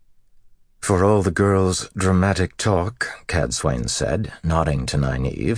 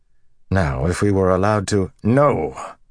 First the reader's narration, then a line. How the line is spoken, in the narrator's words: Rand growled